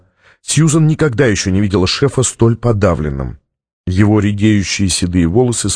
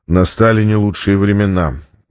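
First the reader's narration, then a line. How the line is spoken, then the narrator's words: Sighed. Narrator (Russian): вздохнул Стратмор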